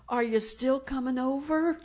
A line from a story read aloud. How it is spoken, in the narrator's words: the lady said in a very, very quiet voice